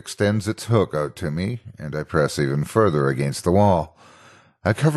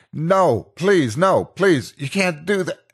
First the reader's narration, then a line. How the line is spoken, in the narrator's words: I begin yelling